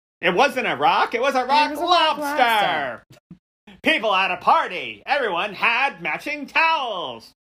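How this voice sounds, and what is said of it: Imitates another person's voice. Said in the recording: “That's my Fred Snyder. ... I can actually do an accurate Fred Snyder impersonation ... that was really good”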